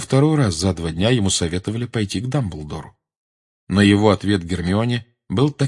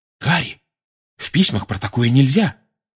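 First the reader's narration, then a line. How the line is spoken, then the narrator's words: Alarmed exclamation. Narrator (Russian): встревоженно воскликнула Гермиона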